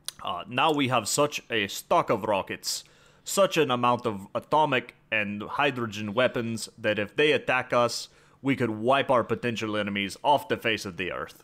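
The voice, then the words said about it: Weak put-on Russian accent, sounds Cuban. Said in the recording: “You have to work on your Russian accent. ... I need to work on my Russian accent. I feel like I got a little more Cuban there than anything”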